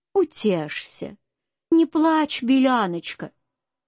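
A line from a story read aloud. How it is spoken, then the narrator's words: Fairy speaking. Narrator (Russian): сказала фея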